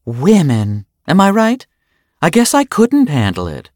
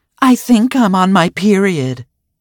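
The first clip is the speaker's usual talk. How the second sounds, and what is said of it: Exaggerated loud stage whisper. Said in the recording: “she whispered in a very loud voice”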